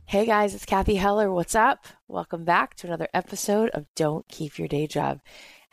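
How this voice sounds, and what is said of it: Hoarse, husky sore-throat voice. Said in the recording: “my sexy, I have a sore throat, Kathleen Turner voice”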